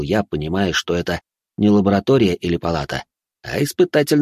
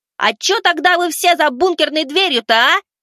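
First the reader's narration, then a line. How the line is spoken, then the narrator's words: Yelling into emptiness. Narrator (Russian): Заорал я в пустоту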